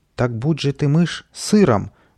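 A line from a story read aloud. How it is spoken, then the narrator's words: Furious exclamation. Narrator (Russian): воскликнул вне себя добрый волшебник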